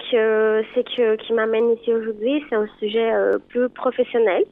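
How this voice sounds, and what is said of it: Pretty regional French accent. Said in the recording (French): “Quel joli accent. Ouais, on adore. Un soleil.”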